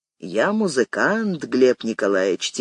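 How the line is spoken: Quiet. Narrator (Russian): тихо сказал Яков

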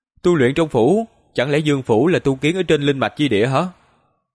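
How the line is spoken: Smiling young woman. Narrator (Vietnamese): Cung Trang thiếu nữ mỉm cười nói

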